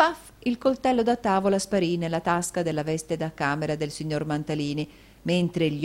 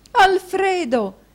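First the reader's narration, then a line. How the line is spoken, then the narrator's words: Exclaimed. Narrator (Italian): esclamò la moglie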